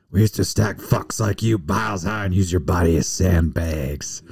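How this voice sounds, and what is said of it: Clint Eastwood impression. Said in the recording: “good Eastwood impression”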